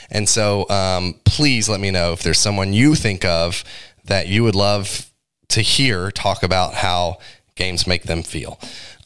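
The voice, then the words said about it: Rough, strained-sounding voice. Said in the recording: “Hopefully my voice won't be this bad.”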